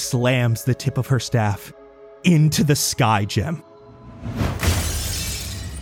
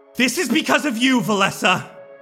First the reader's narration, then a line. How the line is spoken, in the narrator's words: she yells